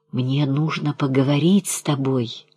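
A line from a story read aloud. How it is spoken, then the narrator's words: Whispered remark. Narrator (Russian): заметил он шепотом Крижову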